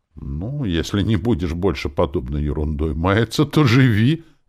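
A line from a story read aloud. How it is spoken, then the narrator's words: Magnanimous permission. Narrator (Russian): великодушно разрешил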